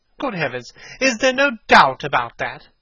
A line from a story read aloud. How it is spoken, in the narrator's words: cried Hallward, looking up at him with an expression of horror